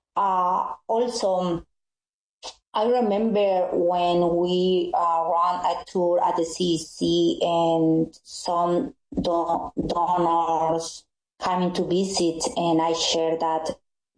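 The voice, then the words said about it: Spanish-accented English. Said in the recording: “I speak Spanish ... my accent English is not as good”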